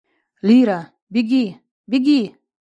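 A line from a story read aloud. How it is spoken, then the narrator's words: Shouting. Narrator (Russian): закричал Виктор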